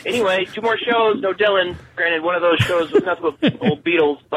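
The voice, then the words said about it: Thick Minnesota accent. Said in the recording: “my thick Minnesota accent”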